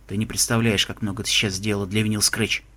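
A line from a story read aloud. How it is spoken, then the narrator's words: Quiet. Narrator (Russian): тихо сказал человек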